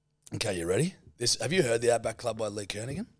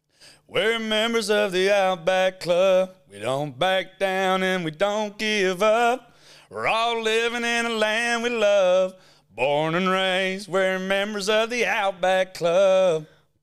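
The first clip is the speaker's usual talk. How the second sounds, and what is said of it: Imitates a country music singer. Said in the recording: “do a not a bad impression of a country music singer ... It's an impression of a country music,”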